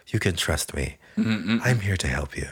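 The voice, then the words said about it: Soft-spoken character voice with accent. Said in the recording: “being all soft-spoken and shit, with his little accent.”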